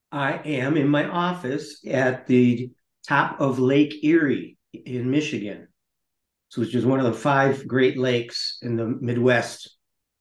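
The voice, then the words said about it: Foreign, non-local accent. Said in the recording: “I can tell from the accent, certainly, that you're not from these lovely shores”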